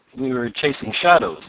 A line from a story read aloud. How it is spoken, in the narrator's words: laughed Tom